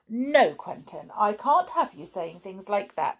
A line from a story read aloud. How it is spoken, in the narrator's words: said his wife firmly